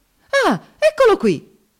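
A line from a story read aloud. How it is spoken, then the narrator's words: Indignant exclamation. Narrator (Italian): esclamò indignato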